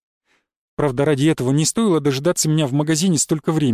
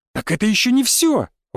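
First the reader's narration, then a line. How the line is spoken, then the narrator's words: Woman exclaiming. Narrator (Russian): воскликнула женщина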